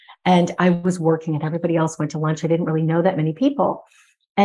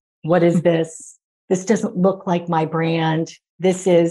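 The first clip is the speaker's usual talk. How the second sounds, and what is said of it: Deep-voiced Martha Stewart impression. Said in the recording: “I heard this very deep voice. ... It's Martha Stewart.”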